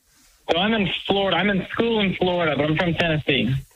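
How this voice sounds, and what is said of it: Southern American twang. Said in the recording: “kind of Mr. Ralph twang”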